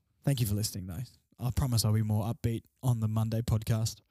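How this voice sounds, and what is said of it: Tired, quieter than usual voice. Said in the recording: “my voice is a bit tired tonight ... I'm a little bit quieter than usual. I'm tired.”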